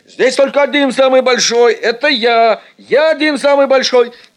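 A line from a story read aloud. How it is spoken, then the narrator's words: Shouting schoolboy strongman. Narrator (Russian): кричал Эд, первый силач нашего класса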